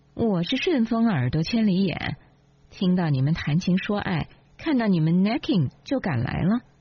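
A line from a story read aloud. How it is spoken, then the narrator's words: Sneering. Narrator (Chinese): 丽琳冷笑说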